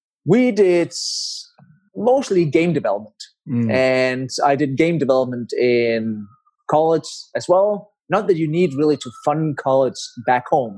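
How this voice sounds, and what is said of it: Danish accent. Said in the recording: “So I'm Danish. That's where the accent is from.”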